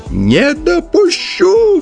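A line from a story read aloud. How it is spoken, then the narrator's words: Old man's shrill shriek. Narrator (Russian): взвизгнул старейший песнопевец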